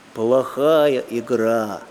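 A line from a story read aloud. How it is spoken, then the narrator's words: Grumbling old gull. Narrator (Russian): пробурчала старая чайка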